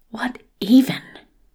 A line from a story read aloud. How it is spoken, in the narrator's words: mutters Daniel